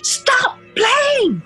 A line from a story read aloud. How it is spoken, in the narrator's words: yelled quite loudly